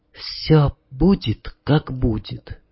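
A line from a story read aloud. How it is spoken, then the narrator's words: Whisper. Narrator (Russian): прошептала Таня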